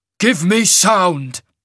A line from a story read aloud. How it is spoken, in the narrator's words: Severian barked